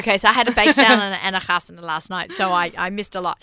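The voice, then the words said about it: Australian accent. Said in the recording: “I'm still so Aussie ... she holds on to her Australian accent ... It's great accent”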